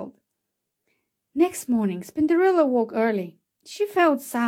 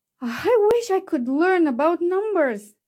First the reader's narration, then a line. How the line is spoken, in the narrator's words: she sighed